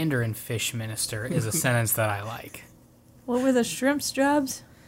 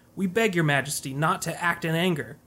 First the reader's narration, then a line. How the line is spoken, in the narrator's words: his dragon sons and grandsons, shrimp officials, crab soldiers, shad generals, mandarin fish ministers all pleaded